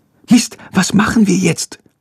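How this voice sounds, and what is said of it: Quiet whisper. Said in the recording (German): “Flüstert Lilly leise.”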